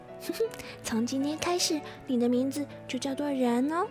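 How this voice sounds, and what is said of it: Soft, quiet gentle voice. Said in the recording (Chinese): “轻声的对着地面上的小东西说”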